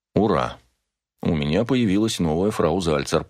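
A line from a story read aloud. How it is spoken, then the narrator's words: Muttered. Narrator (Russian): пробормотал я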